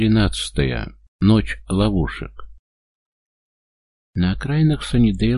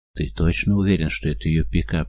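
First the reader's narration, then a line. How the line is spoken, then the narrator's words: Whispered question. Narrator (Russian): шептом спрашивает Том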